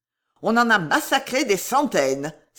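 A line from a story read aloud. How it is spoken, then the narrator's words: Exclaimed. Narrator (French): s'écria-t-il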